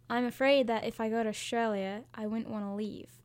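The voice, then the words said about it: Put-on Australian accent. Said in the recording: “Say it in the accent. ... Australian accents are great.”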